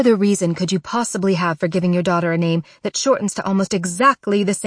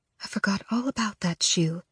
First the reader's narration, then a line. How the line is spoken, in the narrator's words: she murmurs